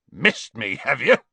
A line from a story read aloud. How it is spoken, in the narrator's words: snorted Hagrid